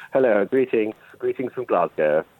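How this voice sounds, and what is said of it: Put-on extra posh voice. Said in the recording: “putting on a posh voice? ... It's already posh ... trying to be even posher.”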